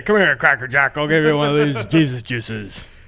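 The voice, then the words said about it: Imitates another person's voice. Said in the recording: “good Joe impression.”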